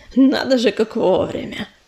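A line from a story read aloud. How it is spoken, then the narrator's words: Low voice, smirking. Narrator (Russian): понизив голос, хмыкнул коршун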